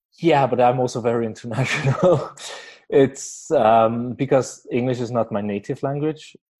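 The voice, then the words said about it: Danish-tinged non-native English accent. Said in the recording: “my accent is more Danish now ... I was mistaken for a person from Calgary sometimes ... Your accent is unique.”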